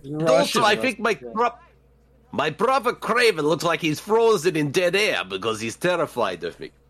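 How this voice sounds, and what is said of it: Fake Russian accent. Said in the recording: “fake Russian accent ... you sound like fucking Australian Russell Crowe, kinda”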